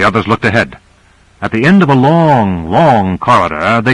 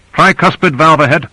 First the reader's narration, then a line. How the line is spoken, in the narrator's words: Owens called out